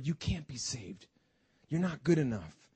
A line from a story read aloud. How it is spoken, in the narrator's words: the enemy will certainly whisper